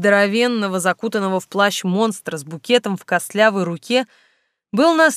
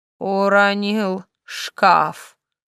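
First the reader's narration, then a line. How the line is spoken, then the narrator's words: Skeleton apologizing. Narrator (Russian): повинился скелет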